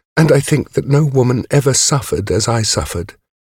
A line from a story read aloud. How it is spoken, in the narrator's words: Brown, sobbing